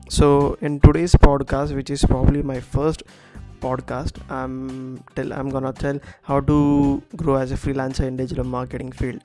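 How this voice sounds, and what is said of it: Ill, strained voice. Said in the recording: “I'm suffering from high fever and high body pain, so please excuse my voice.”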